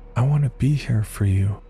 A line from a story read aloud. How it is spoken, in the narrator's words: She cooed